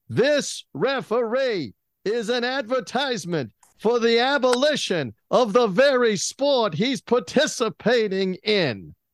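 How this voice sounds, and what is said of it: Howard Cosell impression. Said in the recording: “my impersonation? ... I'm actually good at Cosell.”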